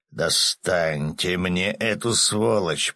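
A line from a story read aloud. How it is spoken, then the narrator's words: Growling. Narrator (Russian): прорычал Ярый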